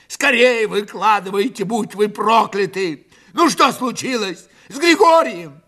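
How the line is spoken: Fearful, furious shout. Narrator (Russian): в страхе, и ярости от того, что никто ничего не говорит, крикнул

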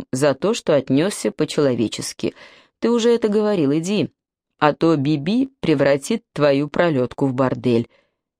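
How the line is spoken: Tired voice. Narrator (Russian): ответил Мок усталым голосом

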